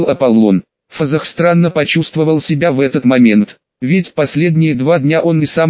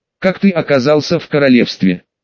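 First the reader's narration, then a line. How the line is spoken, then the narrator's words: Plain. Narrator (Russian): спросил Ванштейн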